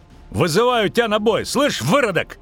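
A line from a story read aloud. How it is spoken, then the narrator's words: Shouting challenge. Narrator (Russian): крикнул цикада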